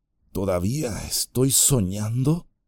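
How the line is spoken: Muttering. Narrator (Spanish): musitó

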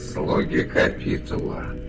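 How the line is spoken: Grumbled. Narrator (Russian): проворчал Маркок

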